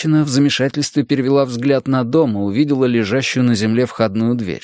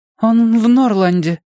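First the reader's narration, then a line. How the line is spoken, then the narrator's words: Thin high woman's voice. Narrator (Russian): тонким голоском ответила женщина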